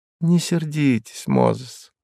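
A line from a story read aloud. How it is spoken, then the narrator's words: Affectionate. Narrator (Russian): ласково произнесла госпожа Мозес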